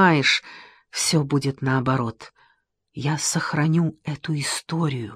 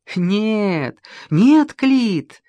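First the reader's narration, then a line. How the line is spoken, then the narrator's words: Laughing happily and lightly. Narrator (Russian): Геродот смеется радостно и легко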